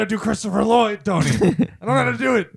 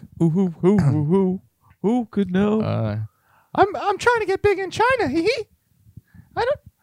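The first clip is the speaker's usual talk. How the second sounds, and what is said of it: High-pitched cartoon mouse character voice. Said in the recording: “That's Mickey Mouse.”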